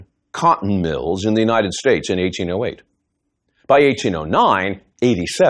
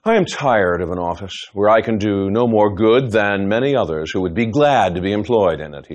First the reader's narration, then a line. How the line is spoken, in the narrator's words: sighed